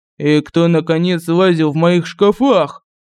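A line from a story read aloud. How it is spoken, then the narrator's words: Prince's growl. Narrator (Russian): зарычал князь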